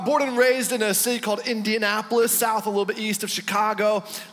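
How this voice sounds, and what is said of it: American accent. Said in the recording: “it doesn't sound like you come from round here. You've got a bit of an accent about you.”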